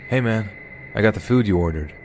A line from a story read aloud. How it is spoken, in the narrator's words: In a very confident voice, he said